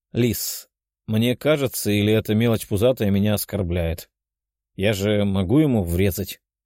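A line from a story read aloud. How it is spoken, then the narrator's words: Calm, mouth full, demon lord. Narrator (Russian): Спокойно переживав пельмень, спросил лорд демонов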